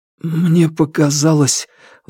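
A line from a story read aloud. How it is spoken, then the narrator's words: Forced out through numb lips. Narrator (Russian): выдавил Алексей онемевшими губами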